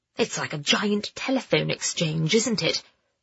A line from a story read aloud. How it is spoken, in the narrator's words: Froggy whispered